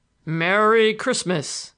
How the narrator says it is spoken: In his big, hearty tones

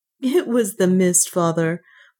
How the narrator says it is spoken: Juana answered with a little laugh

